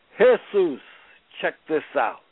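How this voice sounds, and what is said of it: Put-on Mexican accent. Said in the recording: “in that Mexican accent”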